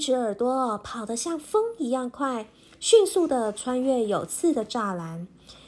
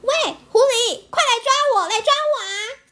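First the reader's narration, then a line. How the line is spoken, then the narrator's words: Loud shout. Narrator (Chinese): 锯齿耳朵大声的喊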